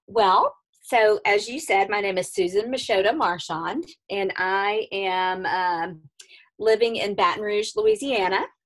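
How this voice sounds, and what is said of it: Southern US accent. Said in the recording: “our really, really cute accents. So you're going to get an overload of Southern accent today”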